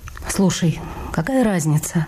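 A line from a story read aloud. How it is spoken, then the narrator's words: Sighing, slightly lower voice. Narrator (Russian): вздохнула и добавила на полтона ниже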